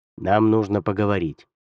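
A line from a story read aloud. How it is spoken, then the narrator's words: Plain. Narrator (Russian): сказал Худзин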